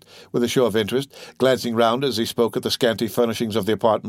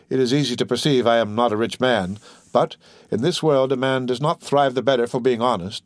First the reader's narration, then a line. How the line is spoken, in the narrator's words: said Cadru with a sigh